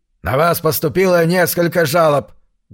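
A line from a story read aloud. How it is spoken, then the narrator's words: Abrupt barking. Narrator (Russian): гаркнул сходу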